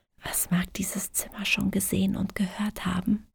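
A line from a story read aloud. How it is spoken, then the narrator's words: Whispering. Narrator (German): flüsterte sie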